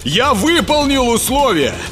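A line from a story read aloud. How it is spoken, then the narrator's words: Shout, chilled with fear. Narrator (Russian): крикнул Сева, чувствуя, как тело охватывает холод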